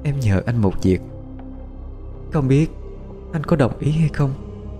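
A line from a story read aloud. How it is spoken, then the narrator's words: Soft speech. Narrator (Vietnamese): Phi khẽ nói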